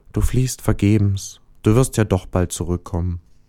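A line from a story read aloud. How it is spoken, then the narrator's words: Sad soft voice. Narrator (German): Der Stern traurig sagte leise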